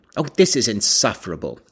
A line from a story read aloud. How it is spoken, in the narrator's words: exclaimed